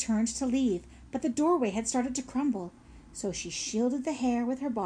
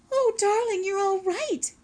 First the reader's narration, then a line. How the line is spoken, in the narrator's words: cried the mother hare